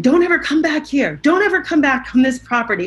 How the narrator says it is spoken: he was screaming at Eddie saying

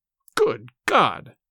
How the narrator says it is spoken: cried the stricken father

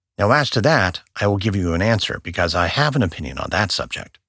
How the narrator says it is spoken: quickly answered

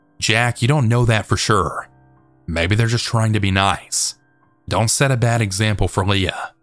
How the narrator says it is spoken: say in a stern tone

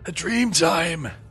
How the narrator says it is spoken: the old man gasped finally

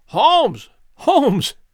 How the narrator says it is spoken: I cried

